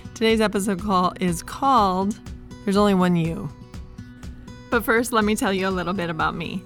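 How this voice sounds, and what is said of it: Rough, congested voice. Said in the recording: “I'm getting over a cold and so my voice is a little bit crazy”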